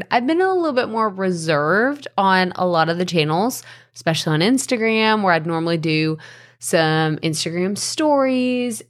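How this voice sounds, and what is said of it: Strained, fading voice. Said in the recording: “You could probably tell. At this point in time, I'm trying not to lose my voice”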